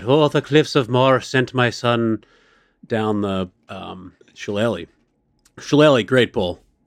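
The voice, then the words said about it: Put-on Irish accent. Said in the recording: “I'm surprised you didn't do an Irish accent there. ... I think you nailed it.”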